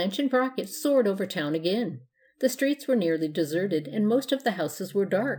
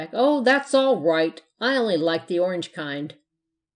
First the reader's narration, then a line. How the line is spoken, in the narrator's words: he shouted back